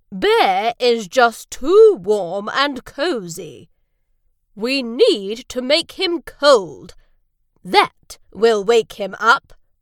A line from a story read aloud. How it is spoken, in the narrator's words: boomed Badger